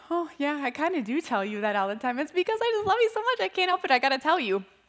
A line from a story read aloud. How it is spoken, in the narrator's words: laughed and I was like